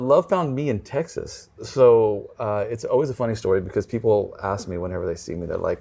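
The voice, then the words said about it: American accent. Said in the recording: “But I talk like this. ... it comes out that I have an American accent, which absolutely throws everyone off”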